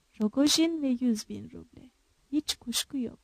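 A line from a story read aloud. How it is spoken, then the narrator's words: Muttering. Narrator (Turkish): diye mırıldandı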